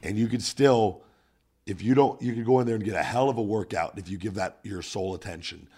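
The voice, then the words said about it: Voice in poor condition. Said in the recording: “my voice is shit this week”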